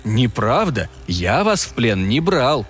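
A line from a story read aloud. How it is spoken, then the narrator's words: Gentle remark. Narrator (Russian): мягко заметил Артур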